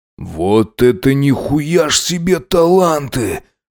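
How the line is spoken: Hoarse rasp. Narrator (Russian): прохрипел он

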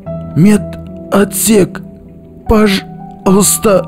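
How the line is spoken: Hoarse rasp. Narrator (Russian): прохрипел биолог

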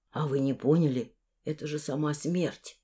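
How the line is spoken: Frightened whisper. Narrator (Russian): испуганно прошептал он, как будто золотоглазая могла его подслушать

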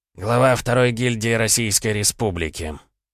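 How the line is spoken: Weary speech. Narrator (Russian): устало проговорил Виктор

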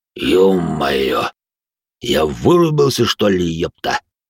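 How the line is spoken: Hoarse curse. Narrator (Russian): Хрипло выругался

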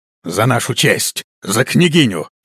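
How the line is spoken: Roaring. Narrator (Russian): взревел он

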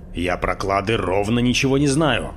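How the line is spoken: Almost angry. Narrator (Russian): Он произнес почти сердито

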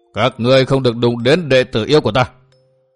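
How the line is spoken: Booming gruff voice. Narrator (Vietnamese): một thanh âm ồm ồm vang động cục trường

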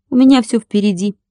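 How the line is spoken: Sad. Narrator (Russian): печально сообщил Владик

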